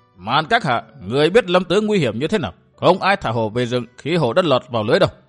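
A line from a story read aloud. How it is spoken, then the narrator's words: Harsh old voice. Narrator (Vietnamese): Lão gai gắt cất giọng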